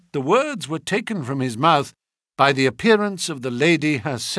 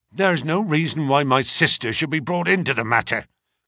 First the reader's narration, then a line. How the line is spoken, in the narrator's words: growled the younger man